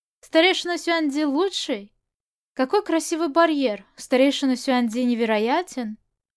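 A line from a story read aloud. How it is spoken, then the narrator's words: Laughing. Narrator (Russian): смеясь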